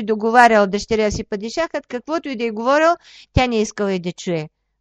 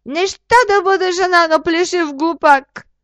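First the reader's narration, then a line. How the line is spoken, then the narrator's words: Shrieking. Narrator (Bulgarian): Падишахската дъщеря изпищяла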